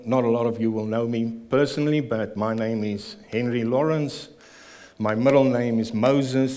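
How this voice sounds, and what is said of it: South African accent. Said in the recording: “the South African ... as you can hear from my accent, I was born in Pretoria, South Africa”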